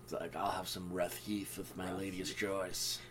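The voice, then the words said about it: Deep exaggerated masculine voice. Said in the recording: “As I say in a deeply masculine voice.”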